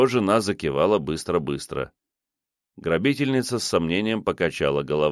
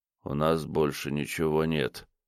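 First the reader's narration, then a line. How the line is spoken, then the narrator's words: Quiet. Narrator (Russian): тихо сказал Решетников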